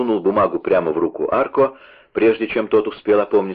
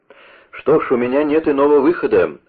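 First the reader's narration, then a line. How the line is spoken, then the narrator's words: Exclaiming. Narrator (Russian): воскликнул Вольфганг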